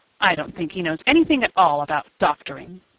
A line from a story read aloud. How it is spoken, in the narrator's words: said Oscar scornfully